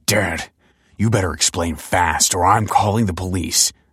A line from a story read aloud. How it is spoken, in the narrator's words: snarled Damien